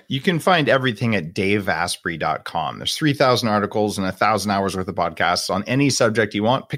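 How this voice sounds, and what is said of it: West Coast American accent. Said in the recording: “my West Coast American accent”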